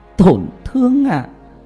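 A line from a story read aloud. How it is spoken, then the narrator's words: Laughing loudly to tears. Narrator (Vietnamese): Tam Nương cười to, cười đến rơi cả nước mắt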